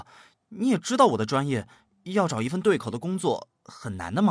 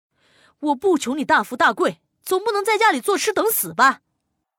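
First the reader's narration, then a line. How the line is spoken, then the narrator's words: Angry. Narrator (Chinese): 赵姨怒道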